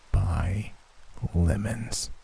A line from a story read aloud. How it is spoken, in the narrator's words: A sinister chill raked across my senses as it whispered